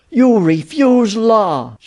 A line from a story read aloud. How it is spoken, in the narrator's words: she cried